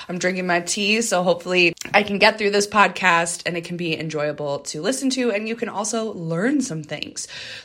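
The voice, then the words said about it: Scratchy voice with a cough. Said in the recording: “My voice is a little scratchy. I've got just a little bit of a cough going on”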